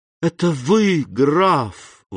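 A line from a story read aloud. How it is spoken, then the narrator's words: Exclaiming. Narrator (Russian): воскликнул Морель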